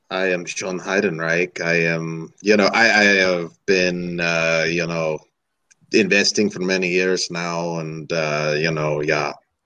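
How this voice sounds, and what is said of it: Put-on German accent. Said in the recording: “I'm doing my German accent ... Can we hear your German accent?”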